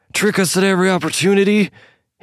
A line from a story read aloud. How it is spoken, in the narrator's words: He bellowed at the woman, his voice drawing attention from the entire bar